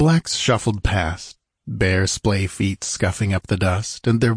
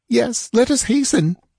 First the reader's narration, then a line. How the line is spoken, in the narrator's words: begged the girl, almost hysterical again